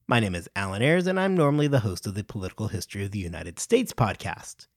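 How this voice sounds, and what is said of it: American accent. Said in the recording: “distinguished sounding American accent”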